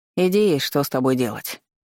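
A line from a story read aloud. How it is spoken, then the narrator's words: Muttered. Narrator (Russian): пробурчал он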